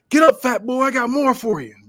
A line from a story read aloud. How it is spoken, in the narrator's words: Rick yells